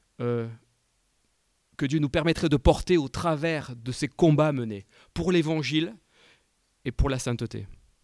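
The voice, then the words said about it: American accent speaking French. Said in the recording (French): “Excuse-moi pour mon accent américain.”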